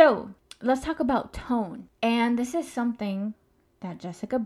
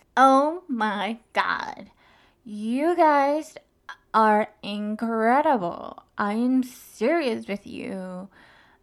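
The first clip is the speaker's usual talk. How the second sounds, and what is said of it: Valley girl voice, elongated words. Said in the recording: “Bali girl accent ... elongated tone or make the word long ... that elongated tone”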